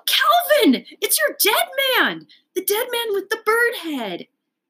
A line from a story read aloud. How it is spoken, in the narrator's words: shout